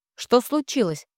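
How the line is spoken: Sharp question. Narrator (Russian): спрашивает резко

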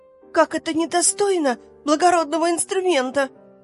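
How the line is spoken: Shrill whisper, violin. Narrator (Russian): переходила на визгливый шепот скрипка

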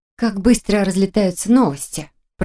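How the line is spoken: Grumble. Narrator (Russian): проворчала

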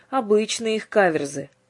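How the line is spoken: Menacing, frowning. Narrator (Russian): грозно нахмурился Иоанн

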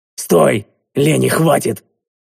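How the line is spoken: Hurried pained bark. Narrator (Russian): зашипев от боли, я поспешно рявкнул

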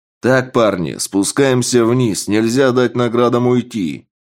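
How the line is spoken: Loud boss. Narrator (Russian): Громко сказал босс

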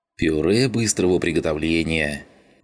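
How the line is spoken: Pleased snort, mouth full. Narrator (Russian): довольно хмыкнул Шум, уплетая завтрак

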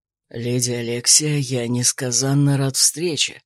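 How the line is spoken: Hoarse. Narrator (Russian): хриплое

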